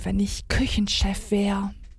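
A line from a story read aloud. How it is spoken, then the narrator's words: Murmured. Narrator (German): murmelte sie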